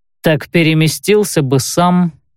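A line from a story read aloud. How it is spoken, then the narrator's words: Snorting remark. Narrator (Russian): хмыкнул Каэль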